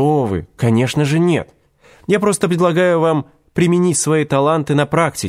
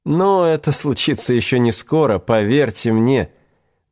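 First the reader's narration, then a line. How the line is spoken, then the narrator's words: Old man's tinkling laugh. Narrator (Russian): дробненько рассмеялся, словно рассыпал горстку мелочи старик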